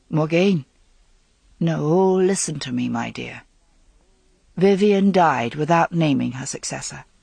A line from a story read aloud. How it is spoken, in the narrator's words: Kevin said quietly